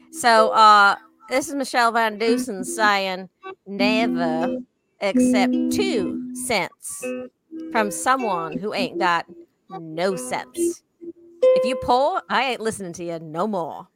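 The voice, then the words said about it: Put-on Southern accent. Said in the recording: “In a all southern right. accent. This one needs a southern accent.”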